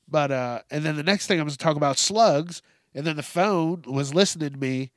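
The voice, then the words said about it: Stuffy, congested nasal voice. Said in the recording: “my voice is, it's a little stuffy ... My nose is a little stuffy.”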